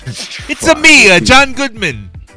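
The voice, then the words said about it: Mario-style Italian character voice. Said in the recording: “I'm Italian ... I'm the new Mario Brothers character. I'm the dude doing the voice now.”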